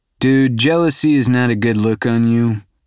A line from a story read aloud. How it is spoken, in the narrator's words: I drawl